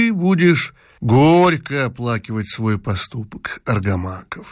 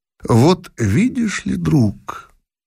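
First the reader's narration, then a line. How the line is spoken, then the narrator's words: Calm, after a pause. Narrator (Russian): выждав мгновение, спокойно промолвил император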